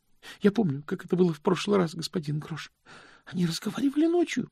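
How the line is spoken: Trembling voice. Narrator (Russian): произнес Стэнли дрожащим голосом

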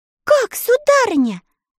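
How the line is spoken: Frightened exclamation. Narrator (Russian): со страхом воскликнула Элли

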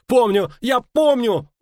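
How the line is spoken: Young man's squeal. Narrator (Russian): взвизгнул парень

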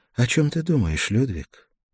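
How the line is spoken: Soft question. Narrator (Russian): Гертруда мягко спросила

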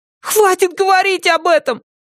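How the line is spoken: Shrill squeal. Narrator (Russian): взвизгнул Стейси

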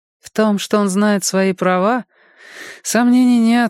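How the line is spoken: Sighing. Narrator (Russian): вздохнула Голли

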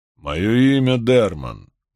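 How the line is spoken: Deep resonant male voice. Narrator (Russian): глубоким и звучным голосом произнес мужчина

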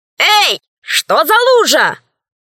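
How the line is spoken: Shouting from the doorway. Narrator (Russian): закричала она с порога

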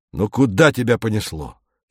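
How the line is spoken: Angry. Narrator (Russian): сердито сказал Королев

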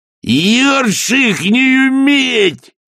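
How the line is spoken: Yelling. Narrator (Russian): завопил он

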